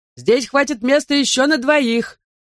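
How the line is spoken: Loud shout filling church. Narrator (Russian): вновь закричал на всю церковь

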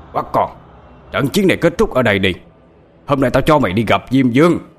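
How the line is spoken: Angry shout. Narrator (Vietnamese): Lão Mao giống như là đang giận chuột, hắn quát lên

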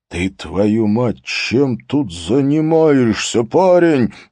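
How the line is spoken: Hoarse wheeze. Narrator (Russian): просипел начальник управления

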